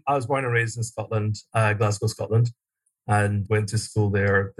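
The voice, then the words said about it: Scottish accent. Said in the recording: “I'm hearing that accent. I know that uh, you're from a land far away”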